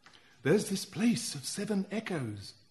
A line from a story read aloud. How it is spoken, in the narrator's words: someone whispered